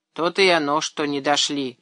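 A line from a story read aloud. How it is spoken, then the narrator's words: Skeptical snort. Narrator (Russian): хмыкнул Тимаш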